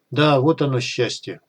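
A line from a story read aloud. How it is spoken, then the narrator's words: Sighing. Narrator (Russian): вздохнул Сухой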